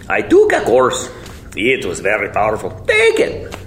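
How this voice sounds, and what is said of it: Put-on Polish accent, self-described as bad. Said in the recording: “my accent suck, but imagine a Polish accent.”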